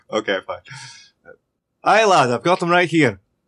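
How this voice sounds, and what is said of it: Put-on Scottish-style accent. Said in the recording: “now where's your accent?”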